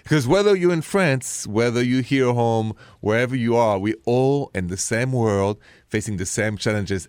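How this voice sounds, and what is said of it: French accent. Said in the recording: “It's me with my French accent.”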